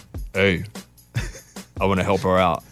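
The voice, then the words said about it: Bad imitation of another person's voice. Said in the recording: “That's a bad Trace impression,”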